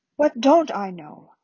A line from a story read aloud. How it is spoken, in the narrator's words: asked Dumbledore calmly